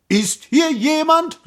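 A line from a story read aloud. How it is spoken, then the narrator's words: Called out. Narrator (German): rief der Prinz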